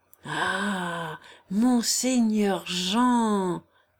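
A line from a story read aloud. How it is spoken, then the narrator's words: Murmured. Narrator (French): murmura-t-il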